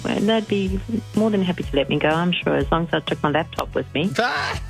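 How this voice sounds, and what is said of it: Whispering. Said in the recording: “your voice indicates to me that you're working ... you're whispering”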